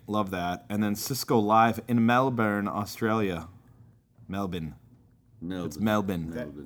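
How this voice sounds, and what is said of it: Put-on Australian accent. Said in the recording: “That's your Melbourne. Aussie accent? ... He's just full of accents.”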